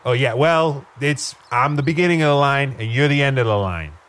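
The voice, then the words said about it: Exaggerated tough-guy regional accent. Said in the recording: “In that Northeastia accent”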